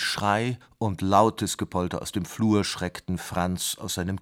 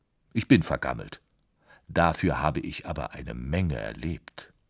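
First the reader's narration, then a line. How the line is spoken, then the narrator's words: Dry, deadpan. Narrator (German): sagte das Klavier trocken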